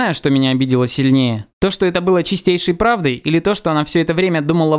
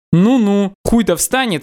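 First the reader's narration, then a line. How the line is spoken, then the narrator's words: Question, then laughter. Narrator (Russian): спросила она и засмеялась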